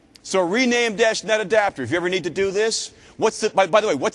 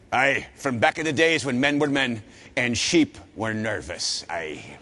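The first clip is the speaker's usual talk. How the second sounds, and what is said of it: Put-on Scottish accent. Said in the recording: “sounded Scottish,”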